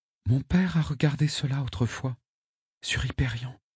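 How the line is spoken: Whispering. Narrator (French): susurra Rachel

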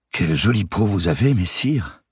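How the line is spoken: Sudden, slightly trembling voice. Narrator (French): dit soudain Dame Eliabel d'une voix qui tremblait un peu

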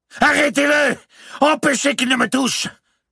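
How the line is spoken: Shouted. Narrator (French): cria Louis X

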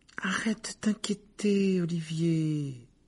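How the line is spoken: Soothing tone. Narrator (French): dit Alicia d'un ton apaisant

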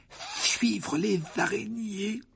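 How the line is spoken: Weak voice. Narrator (French): dit Ron d'une voix faible

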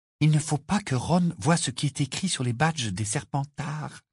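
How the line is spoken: Hurried whisper. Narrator (French): chuchota-t-elle précipitamment

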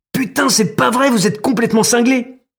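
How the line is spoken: Screamed in pain. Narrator (French): hurle-t-il, les mains recroquevillées sur son sexe endolori

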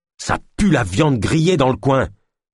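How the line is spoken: Growl. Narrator (French): gronda Ulma

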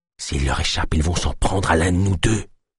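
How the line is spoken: Breathy whisper. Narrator (French): souffla-t-elle

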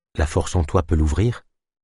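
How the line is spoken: Plain question. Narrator (French): demanda Delune

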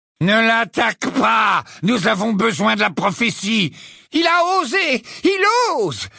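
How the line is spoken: Incoherent screaming. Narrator (French): hurla Bellatrix dans une suite de mots incohérents

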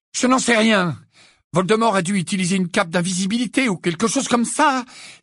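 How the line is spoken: Exclaiming. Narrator (French): s'exclama Harry

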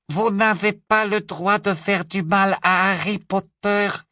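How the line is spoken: Squeaking. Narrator (French): couina-t-il

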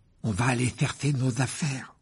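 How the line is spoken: Despairing. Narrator (French): dit Ron d'un ton désespéré

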